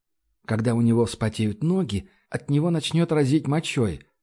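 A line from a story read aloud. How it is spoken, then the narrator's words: Calm. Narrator (Russian): спокойно сказал Баст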